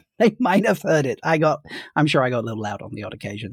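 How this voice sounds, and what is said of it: British accent. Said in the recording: “They probably heard that British accent from across the lobby.”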